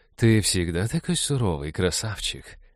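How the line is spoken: Cooing. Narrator (Russian): проворковала она

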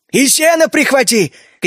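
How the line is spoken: Shouting after someone. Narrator (Russian): крикнул ему вдогонку Джина

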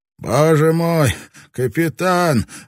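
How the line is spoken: Breathless, over crowd noise. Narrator (Russian): выдохнул Баккус, перекрыв гул вопросов

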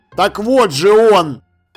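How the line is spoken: Shouting. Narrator (Russian): закричал Ваймс

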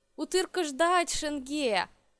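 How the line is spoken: Happily. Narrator (Russian): радостно отвечаю я

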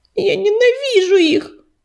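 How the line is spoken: Sobbing. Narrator (Russian): всхлипнула она

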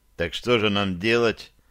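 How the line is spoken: Gloomy question. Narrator (Russian): мрачно спросил Рейн-Иван

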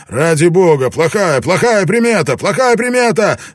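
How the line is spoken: Shouting. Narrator (Russian): Она выкрикнула что-то

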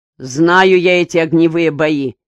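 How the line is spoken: Angry. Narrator (Russian): сердито проговорил Безуглов

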